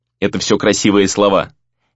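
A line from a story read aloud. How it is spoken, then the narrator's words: Sharp retort. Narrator (Russian): резко отозвался Рэй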